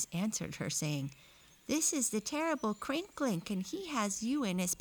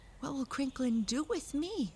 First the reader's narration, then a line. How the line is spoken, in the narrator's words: she asked anxiously